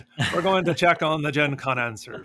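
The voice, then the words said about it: Poor put-on Irish accent. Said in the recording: “It's a terrible Irish accent.”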